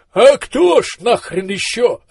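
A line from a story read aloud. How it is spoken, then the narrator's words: Desperate voice. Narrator (Russian): отчаянным голосом откликнулся Маздам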